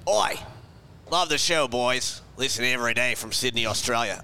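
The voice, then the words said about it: Exaggerated put-on Australian accent. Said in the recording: “You should read this in an accent then ... Was that Australian? ... I think that was like a Steve Irwin impersonation ... it's your caricature of an Australian. Crikey. That was terrible.”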